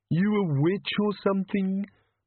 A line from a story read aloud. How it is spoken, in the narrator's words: moaned the bogeyman